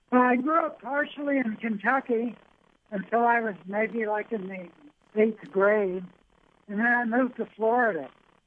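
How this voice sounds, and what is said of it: Slight Southern twang. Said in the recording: “you do have a Southern twang a little bit to your voice”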